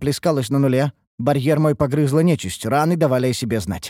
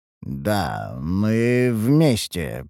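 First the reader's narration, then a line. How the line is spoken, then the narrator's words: Mumbled. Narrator (Russian): пробормотал я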